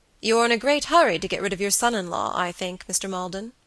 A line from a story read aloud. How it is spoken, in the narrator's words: he said gravely